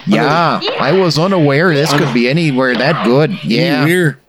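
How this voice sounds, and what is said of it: Put-on Fargo North Dakota accent. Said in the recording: “That was Fargo. ... That's Fargo, North Dakota. ... That was a world tour of accents.”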